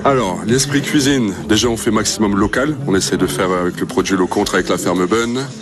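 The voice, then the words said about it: Flemish regional French accent. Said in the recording (French): “Petit accent des Flandres ... petit accent des Flandres”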